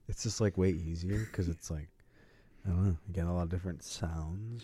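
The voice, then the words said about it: Good radio voice. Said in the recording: “You have a good radio voice, though.”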